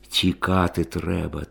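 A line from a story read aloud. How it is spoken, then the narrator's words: Quiet fatherly advice. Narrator (Ukrainian): тихо радив батько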